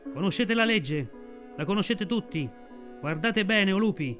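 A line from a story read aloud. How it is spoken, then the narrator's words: Shouting. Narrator (Italian): Achela dalla sua roccia gridava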